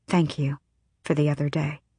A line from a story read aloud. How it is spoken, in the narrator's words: So softly no one could hear, Aelin said